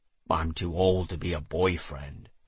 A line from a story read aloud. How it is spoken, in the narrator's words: I grumbled, already hating that nickname